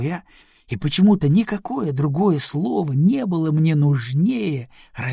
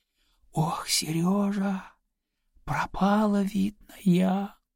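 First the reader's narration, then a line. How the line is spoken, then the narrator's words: Faltering whisper. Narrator (Russian): западающим шепотом сказала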